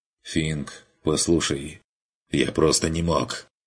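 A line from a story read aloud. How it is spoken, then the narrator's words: Firm curt whisper. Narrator (Russian): Решительным шепотом отрезал тот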